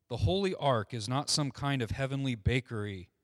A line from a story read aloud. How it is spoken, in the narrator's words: said the rabbi